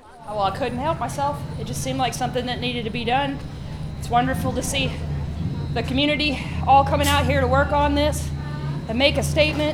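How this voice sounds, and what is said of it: Breathless, out-of-breath speech. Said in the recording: “Sorry, I'm out of breath. I've just been drawing my little heart out.”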